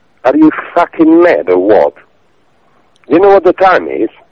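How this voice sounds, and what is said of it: Slight Italian accent. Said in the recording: “He sounded a little Italian.”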